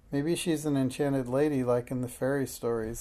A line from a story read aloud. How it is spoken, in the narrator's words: said Alice